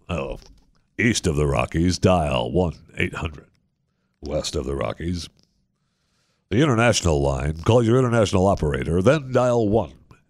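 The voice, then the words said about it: Imitates a late-night radio host voice. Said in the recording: “the radio voice ... that's a little bit different than Coast to Coast AM with Art Bell”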